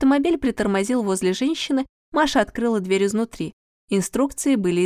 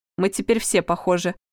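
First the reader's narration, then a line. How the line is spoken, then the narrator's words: Grumbling. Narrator (Russian): проворчал Игорь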